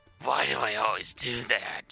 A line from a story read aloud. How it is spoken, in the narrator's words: He grumbled to himself